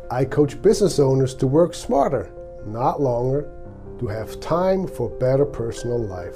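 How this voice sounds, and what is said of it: Swiss accent. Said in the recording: “my accent, I came from Switzerland more than 30 years ago”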